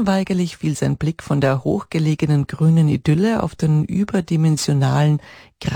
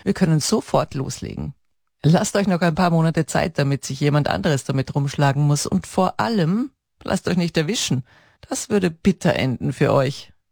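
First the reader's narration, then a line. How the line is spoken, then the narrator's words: Laughing. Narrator (German): antwortete er lachend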